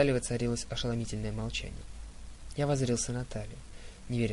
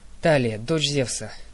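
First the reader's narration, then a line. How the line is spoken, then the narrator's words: Solemn. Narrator (Russian): торжественно произнесла Артемида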